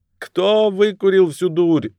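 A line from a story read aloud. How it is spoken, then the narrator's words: Yelling. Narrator (Russian): завопил Крист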